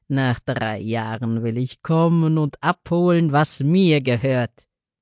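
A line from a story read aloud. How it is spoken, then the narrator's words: Scornful laughing speech. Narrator (German): lachte höhnisch und sagte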